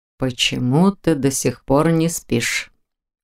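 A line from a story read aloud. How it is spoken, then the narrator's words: Quiet, warm, suppressed excitement. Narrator (Russian): Голос его звучал тихо и тепло, в нем даже слышалось волнение, которое Непогодин явно пытался скрыть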